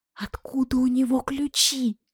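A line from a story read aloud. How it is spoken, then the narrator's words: Hysterical whisper. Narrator (Russian): истерическим шепотом голосила я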